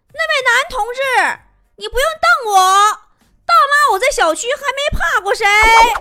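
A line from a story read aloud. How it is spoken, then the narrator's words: Older woman shouting. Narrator (Chinese): 大妈喊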